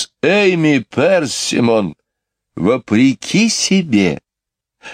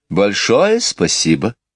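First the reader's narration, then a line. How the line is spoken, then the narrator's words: Calm, polite thanks. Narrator (Russian): спокойно и вежливо поблагодарила ее Мэри Поппинс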